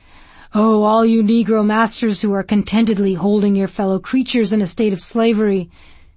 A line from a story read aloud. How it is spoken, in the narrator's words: cried